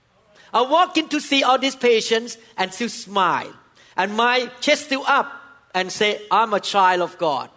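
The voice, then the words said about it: Asian-accented English. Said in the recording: “You think that I'm just an Asian speaking with accent”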